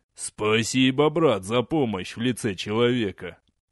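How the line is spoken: Laughing. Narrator (Russian): засмеялся Курама

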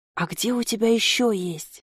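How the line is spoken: Near-whispered question. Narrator (Russian): почти шепотом спросил человек

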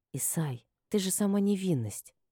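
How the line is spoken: Whispered. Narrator (Russian): прошептала я

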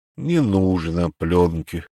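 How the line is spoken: Sighing. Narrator (Russian): вздохнул Арчил

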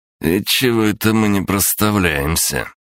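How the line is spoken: Through gritted teeth. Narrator (Russian): процедил татуированный

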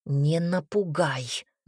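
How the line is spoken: Growl. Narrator (Russian): рыкнул Айрон Гариусу

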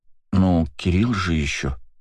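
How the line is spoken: Uncertain voice. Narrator (Russian): неуверенно сказала Ирина

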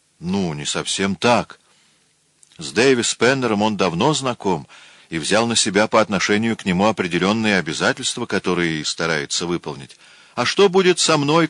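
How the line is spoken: Shout. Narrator (Russian): крикнула

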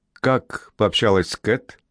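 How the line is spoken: Plain. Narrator (Russian): спросил он

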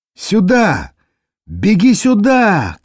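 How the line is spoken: Shouted. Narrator (Russian): крикнули ему

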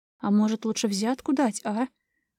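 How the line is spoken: Conspiratorial suggestion. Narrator (Russian): Заговорщицким тоном предложила Анжела

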